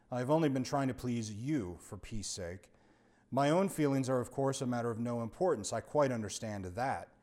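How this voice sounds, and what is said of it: Very dignified voice. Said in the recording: “said the man in a very dignified voice”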